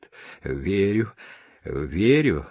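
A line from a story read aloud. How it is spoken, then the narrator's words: Laughing. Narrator (Russian): засмеялся я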